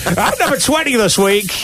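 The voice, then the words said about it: Exaggerated cheesy radio DJ voice. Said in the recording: “they do kind of DJ up a bit. They have the kind of, that Australian twang that suddenly ... turns ... up ... it sounds a bit more like kind of”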